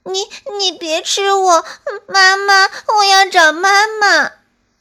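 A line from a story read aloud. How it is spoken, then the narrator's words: Terrified crying child. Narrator (Chinese): 皮皮吓坏了，哭着说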